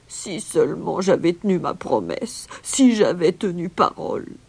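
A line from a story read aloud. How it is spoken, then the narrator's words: Moaning regretfully. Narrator (French): gémissait-il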